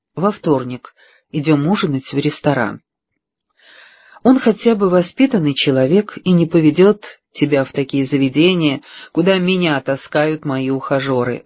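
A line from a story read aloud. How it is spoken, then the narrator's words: Sighing. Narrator (Russian): вздохнула Мэг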